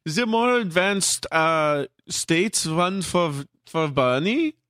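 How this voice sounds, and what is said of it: Put-on German accent. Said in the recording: “You can do the German accent.”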